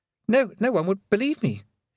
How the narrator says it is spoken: he stammered

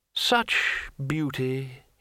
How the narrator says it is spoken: he murmured

